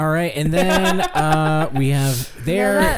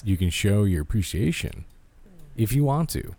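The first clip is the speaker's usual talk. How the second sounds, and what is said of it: Deep, sultry voice. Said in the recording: “that voice is just so sultry, baby ... No, deeper. ... for doing this voice.”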